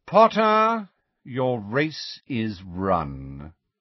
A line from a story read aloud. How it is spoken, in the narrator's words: drawled Lucius Malfoy